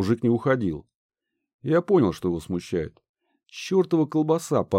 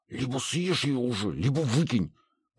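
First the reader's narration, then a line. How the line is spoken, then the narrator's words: Hissed. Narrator (Russian): прошипел Гедеон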